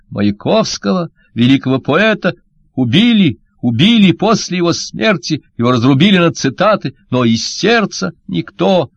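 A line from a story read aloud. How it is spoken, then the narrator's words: High sobbing strained shout. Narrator (Russian): Шкловский крикнул высоким рыдающим голосом, с трудом выталкивая слова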